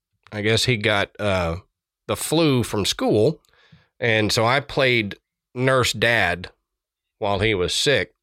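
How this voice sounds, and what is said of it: Sick-sounding voice. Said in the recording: “apologize for my voice. ... I think he gave it to me. So I'm fighting it off, hence why my voice sounds the way it does.”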